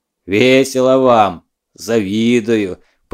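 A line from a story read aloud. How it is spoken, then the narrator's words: Deep bass voice. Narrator (Russian): пробасил Малюта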